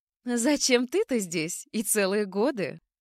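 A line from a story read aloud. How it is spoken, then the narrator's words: Childlike laughter. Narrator (Russian): Отвечала она, захохотала, как ребенок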